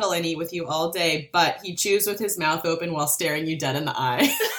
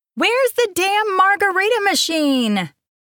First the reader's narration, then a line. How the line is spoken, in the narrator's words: Shailene hollered from Lily's kitchen